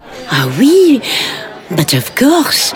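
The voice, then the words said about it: Put-on French accent. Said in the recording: “your accent is very French. ... do you mind if I drop it ... if that exhausts me keeping it up.”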